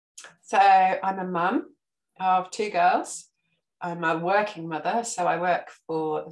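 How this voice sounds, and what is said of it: English accent. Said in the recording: “the people from England. One, I love your accent.”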